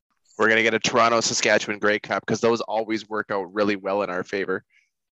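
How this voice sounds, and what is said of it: Sarcastic delivery. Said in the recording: “was sarcasm”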